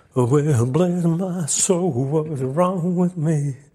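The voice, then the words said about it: Soft Elvis-style singer impression. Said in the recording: “do your Elvis ... I start off kind of soft ... That's really good, actually. ... Elvis impersonations”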